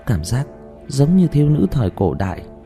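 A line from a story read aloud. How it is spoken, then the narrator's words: Sighing. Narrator (Vietnamese): thở dài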